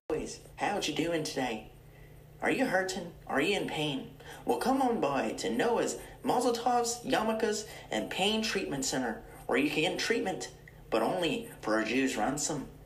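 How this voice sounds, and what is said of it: Put-on accent, ad-style voice. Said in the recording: “why the accent?”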